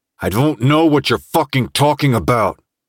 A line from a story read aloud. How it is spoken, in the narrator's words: said through gritted teeth